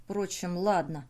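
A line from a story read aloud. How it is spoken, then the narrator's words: Muttering. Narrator (Russian): пробормотал он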